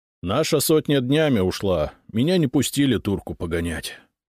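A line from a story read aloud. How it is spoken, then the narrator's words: Sigh. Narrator (Russian): вздохнул Худяков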